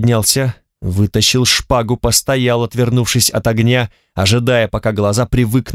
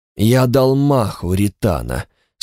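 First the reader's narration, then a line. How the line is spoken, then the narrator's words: Sleepy voice. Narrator (Russian): сонным голосом сообщил Чонатокс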